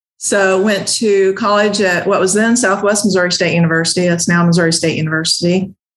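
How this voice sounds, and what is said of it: Slight Southern Ozark twang. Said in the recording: “born and raised in Southwest Missouri um, in the Ozarks. So I got a little bit of a twang.”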